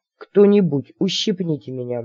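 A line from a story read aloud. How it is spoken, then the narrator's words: Gloomy request. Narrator (Russian): мрачно попросил капитан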